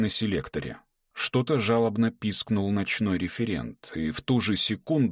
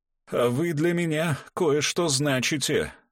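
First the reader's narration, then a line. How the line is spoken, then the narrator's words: Hoarse. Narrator (Russian): хрипло сказал герцог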